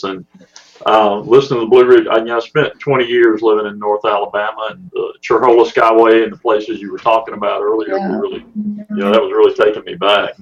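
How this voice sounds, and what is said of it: Southern US accent. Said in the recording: “the accent comes from Mississippi and Alabama, although it fits here in Texas”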